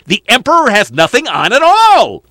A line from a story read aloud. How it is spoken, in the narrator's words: all the people cried out